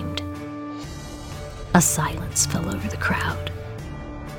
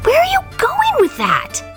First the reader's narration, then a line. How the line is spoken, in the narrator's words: He screamed